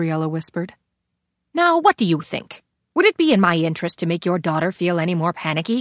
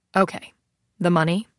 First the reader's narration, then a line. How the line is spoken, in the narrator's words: He asked, his tone suddenly blasé